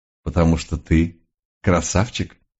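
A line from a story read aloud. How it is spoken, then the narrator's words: Pleased grunt. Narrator (Russian): довольно хмыкнул месье Ренар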